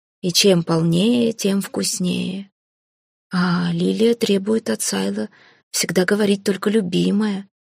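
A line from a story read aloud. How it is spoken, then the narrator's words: Uncertain remark. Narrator (Russian): неуверенно заметил Кайга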